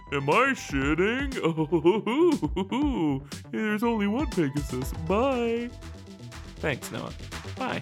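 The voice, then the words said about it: Imitates another person's voice. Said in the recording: “I'll do my best Noah impersonation”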